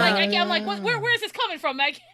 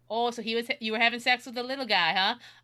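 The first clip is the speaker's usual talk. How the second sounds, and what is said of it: Put-on Minnesota accent. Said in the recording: “Minnesota accent ... I've become Minnesotan for a bit”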